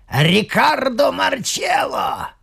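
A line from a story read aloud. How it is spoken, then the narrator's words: Hoarse croak. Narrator (Russian): прохрипел кто-то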